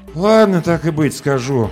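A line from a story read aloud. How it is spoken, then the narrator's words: Exhaled words. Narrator (Russian): выдохнул Ром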